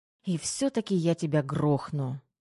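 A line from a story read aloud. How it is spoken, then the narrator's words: Sighing. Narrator (Russian): вздохнула Тома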